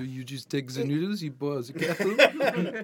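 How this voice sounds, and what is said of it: Put-on French accent. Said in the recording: “your French accent ... Is that a specific Macron impersonation, or is that your default generic French accent?”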